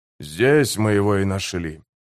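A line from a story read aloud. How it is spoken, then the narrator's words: Quiet speech. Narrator (Russian): тихо сказал он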